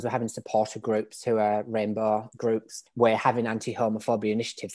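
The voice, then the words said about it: British English accent. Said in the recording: “as you can probably tell from my accent, I'm British. I grew up in England.”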